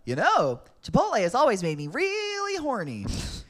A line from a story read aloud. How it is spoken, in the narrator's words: Otto piped up